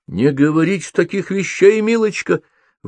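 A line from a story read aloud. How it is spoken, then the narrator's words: Exclamation. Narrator (Russian): воскликнула госпожа Моризе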